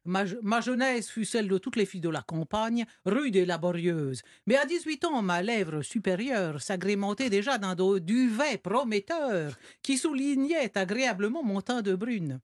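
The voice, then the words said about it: Put-on rural Berrichon French accent. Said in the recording (French): “Est-ce que je prends l'accent de Berrichon qu'avait ... mon grand-père ?”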